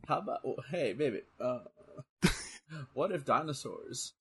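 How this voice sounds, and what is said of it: Imitates another person's voice. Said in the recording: “It kind of sounded like Bill Clinton when you were doing that ... your Joe Rogan is Bill Clinton”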